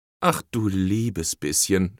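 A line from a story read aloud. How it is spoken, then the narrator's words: Groaning dismay. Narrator (German): stöhnte sie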